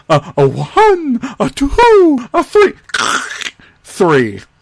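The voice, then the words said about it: Imitation of a cartoon owl voice. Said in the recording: “That was the perfect impression of the Tootsie Pop Owl.”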